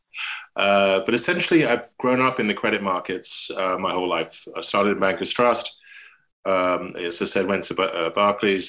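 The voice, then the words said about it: English accent. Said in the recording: “I'm English, you can hear ... Kept my accent”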